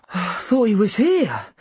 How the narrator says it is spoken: I said wearily

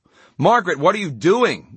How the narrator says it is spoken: Gwinnett shouted from behind her

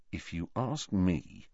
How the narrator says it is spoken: said Harry quietly

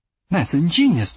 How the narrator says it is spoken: exclaimed

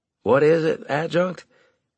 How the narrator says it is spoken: I asked wearily

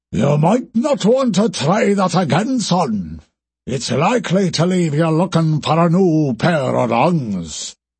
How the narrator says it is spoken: came a deep, booming voice, with an accent that neither Scorpion had heard in what felt like a lifetime

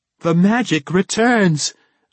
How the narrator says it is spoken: Valindra cried

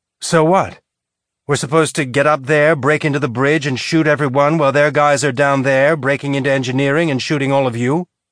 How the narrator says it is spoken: Bull's sigh sounded tired

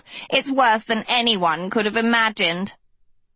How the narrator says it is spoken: the second cackled

